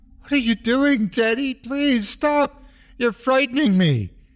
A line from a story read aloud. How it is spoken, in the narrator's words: I cried